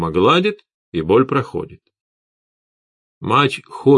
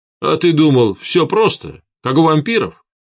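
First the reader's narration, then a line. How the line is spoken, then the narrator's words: Cheerful, smiling. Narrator (Russian): Гессер весело улыбнулся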